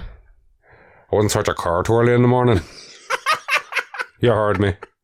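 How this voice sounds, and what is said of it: Put-on Northern Irish accent. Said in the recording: “good Northern Ireland impression ... That's perfect. That's perfect.”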